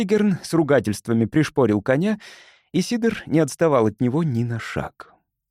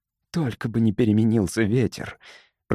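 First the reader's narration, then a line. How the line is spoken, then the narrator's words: Whispered to himself. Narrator (Russian): прошептал про себя Кирон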